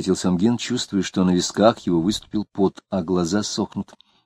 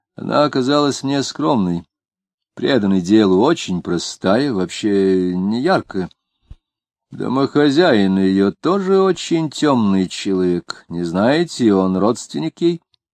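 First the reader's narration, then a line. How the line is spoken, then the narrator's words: Plain. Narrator (Russian): спросил Гогин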